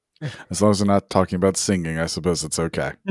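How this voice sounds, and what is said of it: Lower, strained lost voice. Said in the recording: “my voice is a little bit lower than usual today. I've lost my voice”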